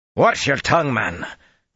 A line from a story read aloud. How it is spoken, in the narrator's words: Gregorin snapped